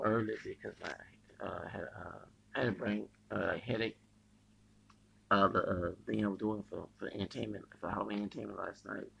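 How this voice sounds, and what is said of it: Hoarse voice. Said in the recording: “my voice is hoarse”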